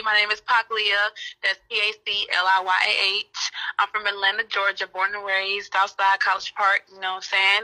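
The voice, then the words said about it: Atlanta accent. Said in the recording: “as soon as I started to hear your tone and your accent, you remind me of Diamond.”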